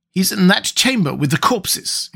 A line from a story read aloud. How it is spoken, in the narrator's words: exclaimed Murillo